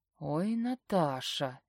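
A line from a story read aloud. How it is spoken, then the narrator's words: Quiet laughing. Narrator (Russian): Тихо угораю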